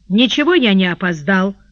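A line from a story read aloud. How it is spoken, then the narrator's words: Plain. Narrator (Russian): ответил Кай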